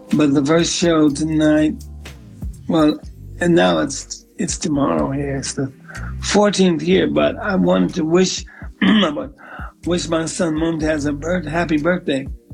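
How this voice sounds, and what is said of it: Slightly raspy voice. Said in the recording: “my voice is a little raspy because we did some rehearsals”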